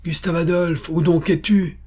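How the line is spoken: Exclamation. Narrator (French): s'écria Pappenheim

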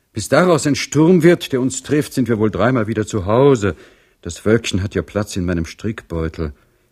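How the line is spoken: Sighing, breathless. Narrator (German): sprach Madame Singwald, der dies raschere Tempo Seufzer entlockte

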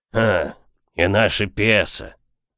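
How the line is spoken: Hoarse voice. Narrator (Russian): добавил хрипатый Боб

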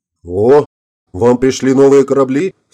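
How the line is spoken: Exclaimed with slight envy. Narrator (Russian): с легкой завистью в голосе воскликнул капитан Беккер

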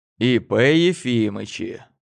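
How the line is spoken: Joking. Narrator (Russian): пошутил

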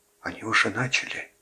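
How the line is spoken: Whispered. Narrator (Russian): прошептал отец Патрик

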